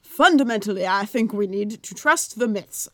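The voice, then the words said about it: Put-on accent while quoting. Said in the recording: “I don't know where that accent just went. It went to place.”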